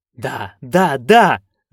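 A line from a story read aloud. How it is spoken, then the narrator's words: Exclaimed. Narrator (Russian): воскликнул Флем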